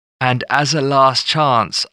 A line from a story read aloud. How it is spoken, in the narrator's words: I cried out